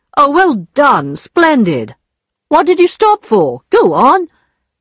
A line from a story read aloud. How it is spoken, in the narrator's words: He, never noticing any difference, cried